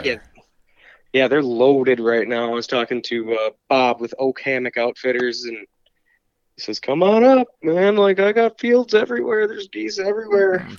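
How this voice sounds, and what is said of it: Congested, sick-sounding voice. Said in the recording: “I have been sick. I might even hear it in my voice a little bit. I've been congested”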